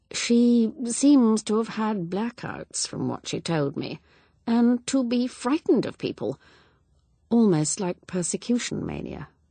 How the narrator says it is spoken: Evelyn said hesitantly

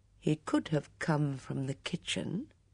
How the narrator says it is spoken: he added slowly

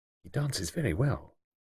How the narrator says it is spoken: Iris said quietly

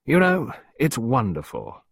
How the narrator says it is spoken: Sir Roland exclaimed

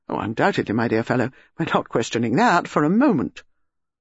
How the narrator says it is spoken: Melchett said quickly

